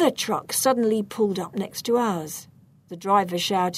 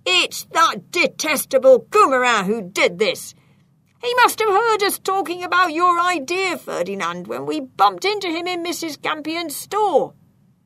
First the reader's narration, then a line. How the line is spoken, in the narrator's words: Pickard shouted